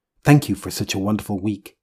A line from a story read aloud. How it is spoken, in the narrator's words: said the latter